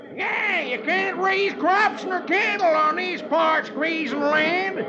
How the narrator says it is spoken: another hollers

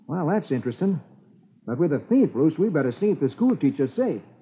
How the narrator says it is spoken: Roy exclaims

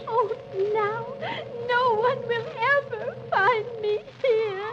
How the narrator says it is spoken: Alice cries

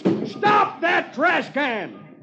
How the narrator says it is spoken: One of them yells

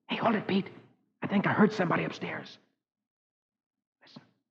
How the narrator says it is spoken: Suddenly, Rusty whispers

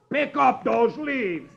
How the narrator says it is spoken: the other one roars

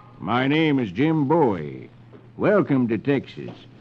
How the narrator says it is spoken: the man drawls

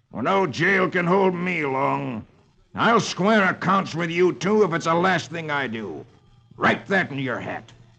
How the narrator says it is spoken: he snarls

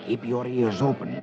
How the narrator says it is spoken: Lafitte whispers to Dick

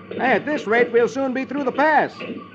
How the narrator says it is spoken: Ken says cheerfully

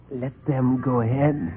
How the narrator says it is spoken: he whispered

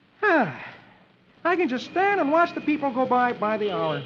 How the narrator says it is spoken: Dagwood smoking his pipe he says cheerfully

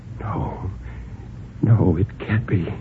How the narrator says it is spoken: Bill whispered

